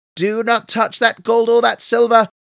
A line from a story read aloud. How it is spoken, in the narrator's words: shouted Amberkilly